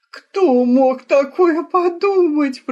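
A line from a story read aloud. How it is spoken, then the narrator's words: Moaning. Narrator (Russian): простонала донна Клаудия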